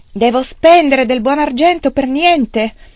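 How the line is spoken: Angry shouting. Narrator (Italian): Wang Lung si arrabbiava con lui e gli gridava

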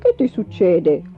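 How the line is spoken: Grumbled. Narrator (Italian): brontolò

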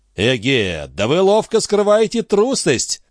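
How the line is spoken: Loud declaration. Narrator (Russian): громко заявил Дон Фернандо

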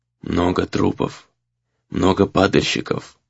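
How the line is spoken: Flat monotone. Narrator (Russian): произнес монотонным, невыразительным голосом

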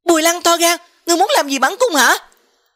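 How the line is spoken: Angry. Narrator (Vietnamese): Tư Hồng Khuynh Yến tỏ ra tức giận, ... nói

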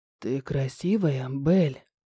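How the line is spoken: Whispered in ear. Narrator (Russian): шепнул мне на ухо

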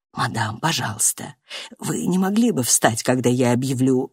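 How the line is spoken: Whisper. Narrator (Russian): пристав прошептал

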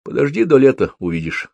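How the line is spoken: Plain. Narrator (Russian): сказал он

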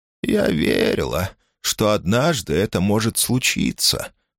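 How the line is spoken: Sighing. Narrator (Russian): вздохнула Фрост

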